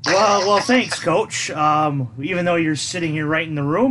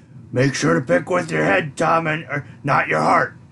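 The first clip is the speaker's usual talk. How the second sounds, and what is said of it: Imitates another person's voice. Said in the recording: “a good Ed Orgeron impersonation there”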